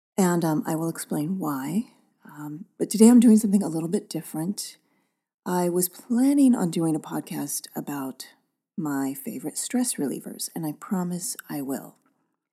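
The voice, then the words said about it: Subdued, quieter voice. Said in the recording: “my voice is a little subdued today”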